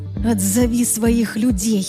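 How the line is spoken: Hoarse rasp. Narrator (Russian): прохрипела я

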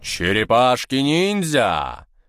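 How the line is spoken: Loud singing, then laughter. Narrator (Russian): Громко пропел брат и рассмеялся

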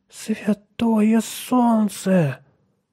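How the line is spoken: Breathed exclamation. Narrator (Russian): выдохнул Отто

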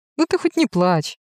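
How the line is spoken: Cheerful snort. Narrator (Russian): фыркает Рокотов весело

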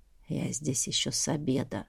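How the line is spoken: Quiet male reply. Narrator (Russian): тихонько ответил драгун по имени Сивас

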